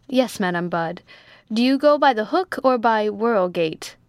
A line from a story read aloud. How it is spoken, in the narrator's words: said Jones